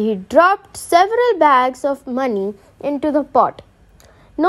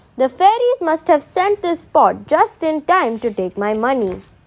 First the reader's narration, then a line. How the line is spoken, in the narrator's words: exclaimed